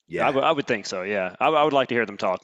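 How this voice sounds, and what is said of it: Southern American accent. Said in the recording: “I can hear it in your voice. You have a very different accent than a Northerner from Massachusetts ... I like people from Alabama. I like people from the South.”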